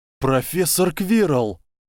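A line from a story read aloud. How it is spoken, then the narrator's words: Exclaiming. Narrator (Russian): воскликнул Гарри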